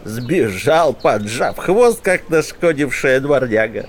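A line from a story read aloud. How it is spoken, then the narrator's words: Snide laugh, hermit. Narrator (Russian): Ехидно рассмеялся отшельник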